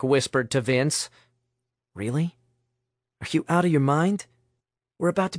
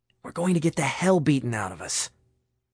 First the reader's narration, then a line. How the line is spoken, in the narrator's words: Nick whispered furiously